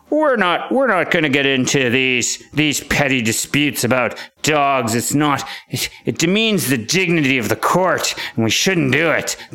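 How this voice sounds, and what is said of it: Mock authoritative judge voice. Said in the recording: “doing a terrible impression of a judge. I feel like I have to sound more authoritative”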